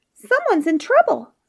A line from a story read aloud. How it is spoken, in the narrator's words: squeaked the mouse